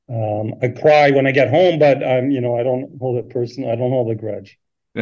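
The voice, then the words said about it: Canadian accent. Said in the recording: “has an accent ... we do struggle to tell the difference between an American and a Canadian accent”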